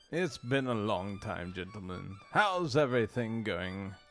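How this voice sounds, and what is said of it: Put-on character accent. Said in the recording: “I almost forgot my accent.”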